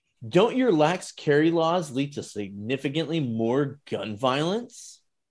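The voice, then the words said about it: Sarcastic voice. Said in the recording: “read it in my sarcasm voice”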